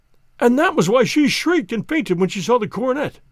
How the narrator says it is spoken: cried Mr

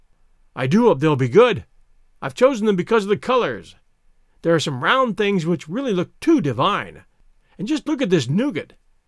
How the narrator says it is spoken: he cried ecstatically

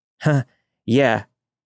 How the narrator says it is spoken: said, my voice shaking

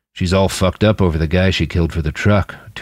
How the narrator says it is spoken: Tuli grunted

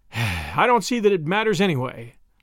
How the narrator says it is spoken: said wearily

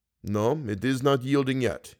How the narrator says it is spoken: he muttered

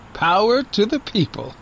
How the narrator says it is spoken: Daniel said and laughed

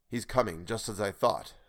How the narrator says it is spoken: muttered

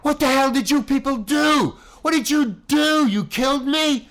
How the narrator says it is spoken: yelled

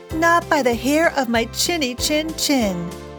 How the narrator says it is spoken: cried the first little pig

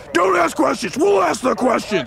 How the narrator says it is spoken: The agents just respond gruffly

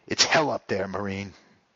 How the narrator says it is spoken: one tall, lanky fellow caught my eye and said in a weary voice

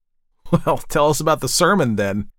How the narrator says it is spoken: laughed James

